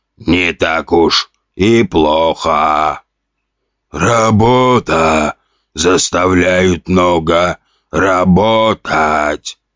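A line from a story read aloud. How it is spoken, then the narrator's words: Hoarse rasping zombie. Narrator (Russian): прохрипел другой зомби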